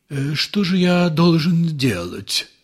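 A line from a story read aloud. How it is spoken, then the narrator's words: Moaning. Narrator (Russian): простонал Ипполит Матвеевич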